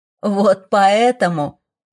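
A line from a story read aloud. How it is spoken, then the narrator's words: Laughing dragon. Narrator (Russian): продолжая хохотать, проговорил дракон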